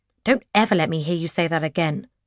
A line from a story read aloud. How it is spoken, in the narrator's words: Raven snaps